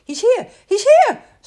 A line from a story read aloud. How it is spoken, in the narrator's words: squeaked Rabbit